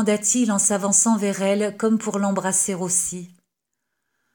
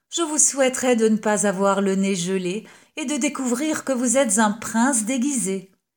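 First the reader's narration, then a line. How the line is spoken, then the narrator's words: Impertinent laughing reply. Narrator (French): répliqua-t-elle en riant avec impertinence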